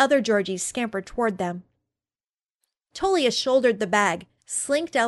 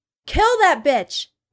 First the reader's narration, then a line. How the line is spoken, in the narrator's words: yelled